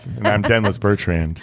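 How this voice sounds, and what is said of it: Smooth low late-night radio voice. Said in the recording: “This is my midnight radio voice.”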